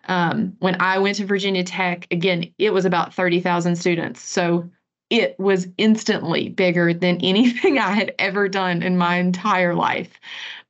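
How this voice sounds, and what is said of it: Southern American accent. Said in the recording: “I have a Southern accent. I'm not sure that you've noticed.”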